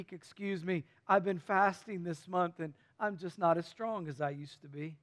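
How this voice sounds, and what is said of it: Feigned weak, tired voice. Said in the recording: “I'm just a little fatigued today. My voice is a little bit weak.”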